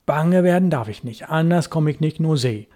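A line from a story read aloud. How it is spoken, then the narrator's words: Muttering to himself. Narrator (German): sagte er vor sich hin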